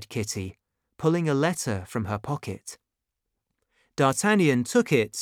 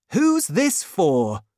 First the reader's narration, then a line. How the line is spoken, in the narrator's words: he cried, pretending to be shocked